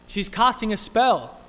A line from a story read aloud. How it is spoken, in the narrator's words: someone cried out